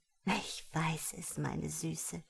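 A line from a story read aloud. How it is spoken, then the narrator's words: Urgent imploring whisper. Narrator (German): flüsterte Juliette beschwörend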